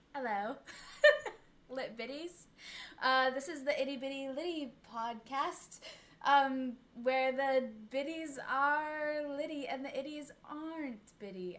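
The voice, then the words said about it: Attempted British accent, not convincing. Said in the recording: “I don't think I can do a British accent, but I'll try. ... I'm not doing a good job.”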